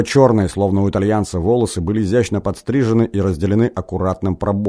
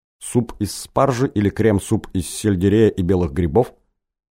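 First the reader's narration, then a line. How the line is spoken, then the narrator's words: Plain question. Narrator (Russian): спросил этот парень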